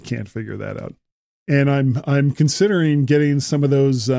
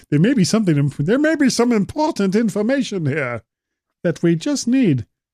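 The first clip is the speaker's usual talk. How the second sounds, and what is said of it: Funny voice into bad German accent. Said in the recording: “We started off as a funny voice and just went right into bad German accent.”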